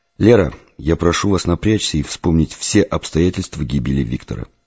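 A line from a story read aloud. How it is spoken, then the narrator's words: Plain. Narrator (Russian): сказал я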